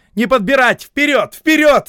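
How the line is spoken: Shouting. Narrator (Russian): закричали адъютанты

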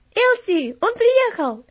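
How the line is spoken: Shouted. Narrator (Russian): Вальтер крикнул

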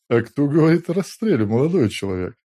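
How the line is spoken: Policeman chuckling. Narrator (Russian): хохотнул милиционер

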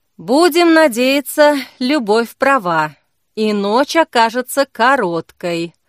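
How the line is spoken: Sighing. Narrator (Russian): вздохнула Зои

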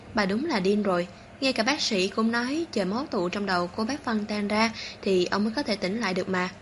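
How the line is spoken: Self-mocking, smiling. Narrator (Vietnamese): Phó Tĩnh Đình mỉm cười tự chế giễu

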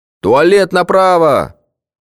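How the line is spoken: Shouted after someone. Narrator (Russian): крикнул ему вдогонку психонарколог

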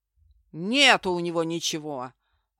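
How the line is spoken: Barking. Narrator (Russian): рявкнул один из преступников

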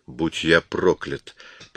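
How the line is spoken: Mutter. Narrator (Russian): пробормотал Коридон

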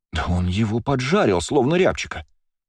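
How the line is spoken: Exclaimed. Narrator (Russian): воскликнула Лия

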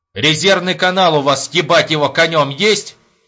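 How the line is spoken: Loud question. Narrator (Russian): громко спросил Епифанов

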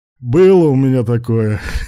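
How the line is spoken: Chuckling. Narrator (Russian): Руслан, хохотнув

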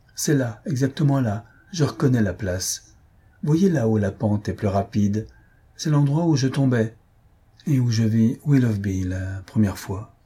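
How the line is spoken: Fairly calm tone. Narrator (French): elle dit, d'un ton assez calme

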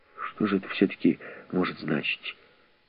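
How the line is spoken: Mutter. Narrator (Russian): пробормотал Тревельян

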